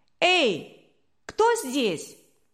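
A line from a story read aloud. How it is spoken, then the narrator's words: Thin boyish shout. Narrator (Russian): тонкий мальчишеский голос крикнул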